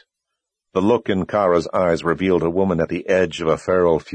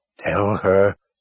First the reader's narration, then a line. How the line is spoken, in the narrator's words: Kara growled